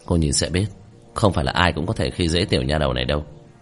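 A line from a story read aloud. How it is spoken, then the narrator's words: Cold smirk. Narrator (Vietnamese): Tiểu Thất cười nhạt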